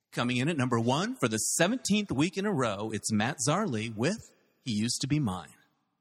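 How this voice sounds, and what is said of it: Radio DJ countdown voice. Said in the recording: “This is how I'm going to close with my DJ voice. ... on American Top 40 ... That was so believable.”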